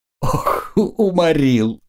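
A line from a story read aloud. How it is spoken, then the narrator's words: Wailing through laughter. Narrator (Russian): причитала она сквозь смех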